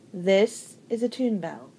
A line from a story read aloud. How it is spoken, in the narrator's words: he said